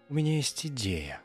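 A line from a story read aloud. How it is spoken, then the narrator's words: Purring. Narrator (Russian): промурлыкала Фрэнсис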